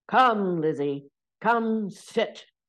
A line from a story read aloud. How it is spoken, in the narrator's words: bellowed